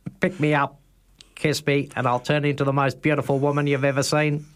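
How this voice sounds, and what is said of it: Robotic frog character voice. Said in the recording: “I sound like a robot ... You sound like Dexter ... Ditch the frog accent.”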